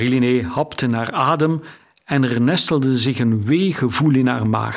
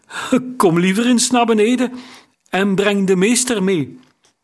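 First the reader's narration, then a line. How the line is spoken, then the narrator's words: Calling in unsteady voice. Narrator (Dutch): riep met onvaste stem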